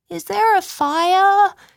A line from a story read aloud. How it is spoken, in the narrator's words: asked, yawning